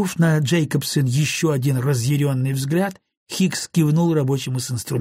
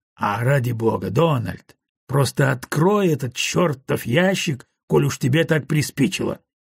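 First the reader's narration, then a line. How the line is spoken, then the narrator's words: Grumbling mutter. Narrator (Russian): буркнул Гарднер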